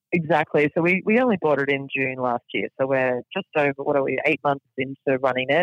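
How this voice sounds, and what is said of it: Australian accent. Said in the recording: “if people can't tell from your accent, you're from Australia”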